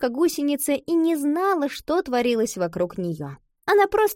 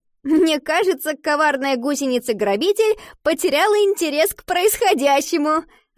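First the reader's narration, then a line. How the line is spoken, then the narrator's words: Laughing. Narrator (Russian): рассмеялась Ива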